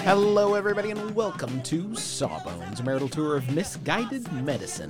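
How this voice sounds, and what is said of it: Odd inflection, stress in unusual places. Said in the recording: “What was that inflection? ... there was some of the accents in different places, places they haven't been before”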